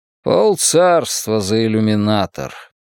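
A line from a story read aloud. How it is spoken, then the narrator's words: Grumbled. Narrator (Russian): пробурчал Ли Хент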